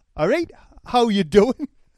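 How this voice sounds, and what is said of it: Put-on Geordie accent. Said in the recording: “Do you want me to do a Geordie accent? ... What's your Geordie accent? ... That's not bad, is it?”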